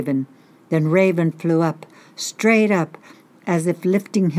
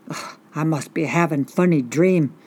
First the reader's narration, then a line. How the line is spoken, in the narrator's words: the old man mumbled to himself